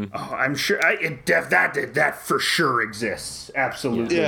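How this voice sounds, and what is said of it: Usual voice. Nothing is said of it.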